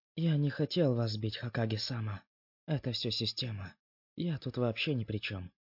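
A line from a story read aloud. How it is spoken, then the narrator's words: Quiet whisper mid-blow. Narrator (Russian): тихо прошептал он во время удара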